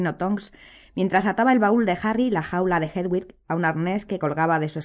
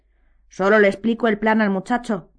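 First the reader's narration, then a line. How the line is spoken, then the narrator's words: Growling. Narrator (Spanish): gruñó Modi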